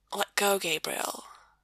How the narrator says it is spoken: Sam whispers

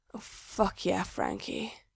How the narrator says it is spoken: in his sex voice, in the voice he uses when Gerard's going down on him

